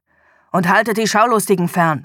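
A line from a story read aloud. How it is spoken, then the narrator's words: Harsh snapping. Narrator (German): schnauzte er seine Untergebenen an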